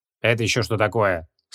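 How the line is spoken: Mildly displeased grumble. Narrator (Russian): с легким недовольством буркнул Поляков

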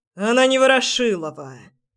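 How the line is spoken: Barking snap. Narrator (Russian): рявкнул он

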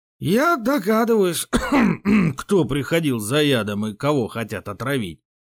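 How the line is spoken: Hoarse strained old voice. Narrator (Russian): сиплым голосом выдавил враз постаревший боярин

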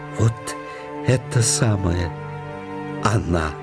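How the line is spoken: Joyful hoarse hiss. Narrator (Russian): оживился и зашипел своим больным горлом радостно

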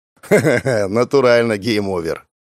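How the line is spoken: Chuckling. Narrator (Russian): Гоша хохотнул

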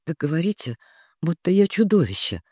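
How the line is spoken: Whisper. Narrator (Russian): прошептал он

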